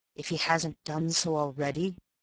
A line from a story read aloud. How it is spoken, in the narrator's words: muttered Eubank after him